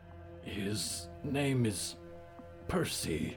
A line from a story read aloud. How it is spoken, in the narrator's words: Diggory said hesitantly